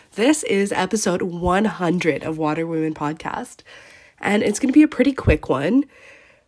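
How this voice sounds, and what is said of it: Sick-sounding voice. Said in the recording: “As you can tell from my voice, I am again sick”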